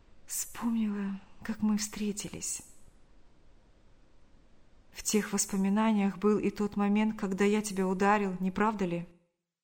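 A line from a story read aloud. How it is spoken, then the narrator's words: Sighing, barely audible whisper. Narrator (Russian): Вздохнув, она еле слышно прошептала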